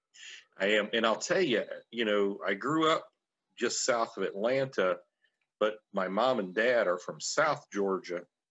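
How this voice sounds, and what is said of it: Thick Southern US accent. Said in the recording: “You have that wonderful southern accent ... Heavy, heavy accents all around ... my accent has gotten very much thicker”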